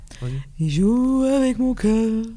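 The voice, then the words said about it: Sung imitation of a female singer. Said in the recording (French): “j'essaye Patricia Cass ... pas mal”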